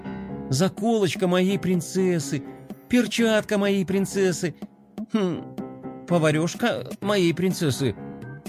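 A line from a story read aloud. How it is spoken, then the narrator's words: Slightly bewildered. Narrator (Russian): немного растерянно произнес скейтбордист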